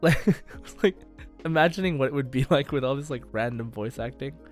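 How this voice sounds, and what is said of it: Usual voice. Nothing is said of it.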